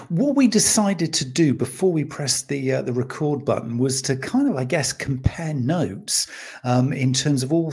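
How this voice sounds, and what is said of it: UK accent. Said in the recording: “I'm based obviously in the UK. You can probably tell by the accent”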